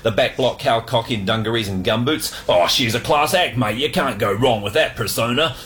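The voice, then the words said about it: New Zealand accent. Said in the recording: “as a New Zealander ... You sound like you're from New Zealand”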